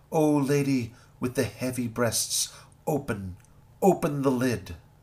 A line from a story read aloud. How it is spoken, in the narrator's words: The heavenly voice cries out